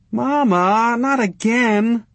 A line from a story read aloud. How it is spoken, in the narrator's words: Brenda whined